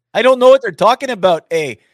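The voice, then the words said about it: Put-on Canadian accent. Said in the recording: “that's what you should make your imitation character. He should be a Canadian, eh? ... I like your Southern one better”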